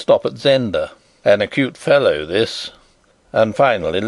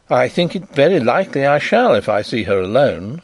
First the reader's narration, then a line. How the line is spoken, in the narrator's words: said I